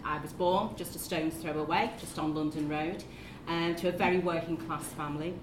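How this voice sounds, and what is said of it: Scouse Liverpool accent. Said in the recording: “as you can hear from the accent, yes, I am a Scouser”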